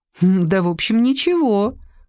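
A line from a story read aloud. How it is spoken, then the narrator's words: Laughing. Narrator (Russian): засмеялась Алиса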